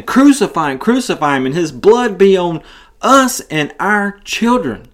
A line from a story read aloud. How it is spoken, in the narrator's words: this crowd yelling at Pilate, saying